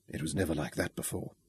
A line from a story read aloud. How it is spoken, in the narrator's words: he whispered